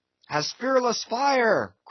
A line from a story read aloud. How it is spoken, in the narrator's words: cried Stubb